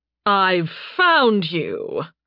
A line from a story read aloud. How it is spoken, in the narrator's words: Fias growled